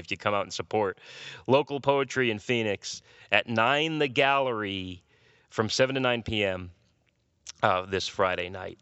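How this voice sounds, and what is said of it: Hoarse voice. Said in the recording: “I'm feeling hoarse.”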